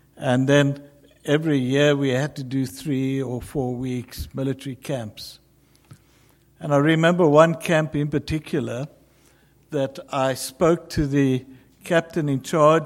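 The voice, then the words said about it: South African accent. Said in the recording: “I'm a South African ... You'll recognize it in my speech ... the accent that I have”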